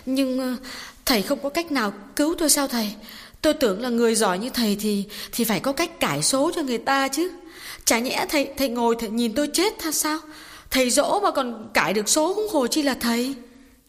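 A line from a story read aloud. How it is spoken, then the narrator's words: Anxious, tearful interruption. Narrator (Vietnamese): Bà Tạo nóng ruột, mếu máo ngắt lời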